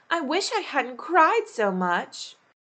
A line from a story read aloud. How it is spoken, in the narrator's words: cried Alice